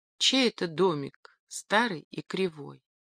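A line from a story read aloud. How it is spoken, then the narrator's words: Timid question. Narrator (Russian): робко спросила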